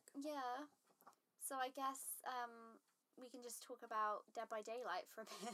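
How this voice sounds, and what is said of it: Strained voice, breaking up. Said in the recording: “my voice is going. ... voice kept breaking.”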